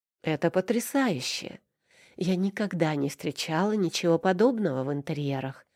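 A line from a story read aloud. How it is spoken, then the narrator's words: Cooing, gushing. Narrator (Russian): ворковала Милана Гронская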